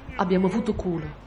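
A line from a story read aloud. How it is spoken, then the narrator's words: Congested murmur. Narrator (Italian): Herr Hammer, costipato, mormorò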